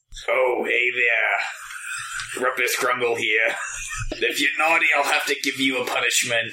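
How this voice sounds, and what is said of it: Gruff alien leather-daddy character voice. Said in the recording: “My character is Rumpus Krungle, a Krogan leather daddy ... do the voice”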